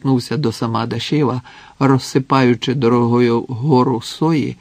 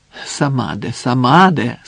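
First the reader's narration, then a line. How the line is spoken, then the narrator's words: Deeply sorrowful voice. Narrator (Ukrainian): сказав зі, здавалося б, нескінченним жалем у голосі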